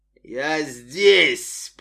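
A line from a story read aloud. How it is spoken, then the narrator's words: Roaring burned man. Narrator (Russian): проревел сожженный человек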